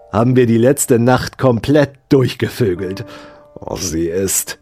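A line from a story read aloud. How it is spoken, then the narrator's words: Hissed. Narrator (German): zischte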